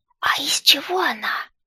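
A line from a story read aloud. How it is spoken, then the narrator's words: Whisper. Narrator (Russian): Шепот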